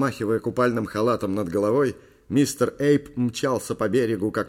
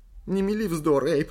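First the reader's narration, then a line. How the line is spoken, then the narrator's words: Whimpering. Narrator (Russian): захныкала Ли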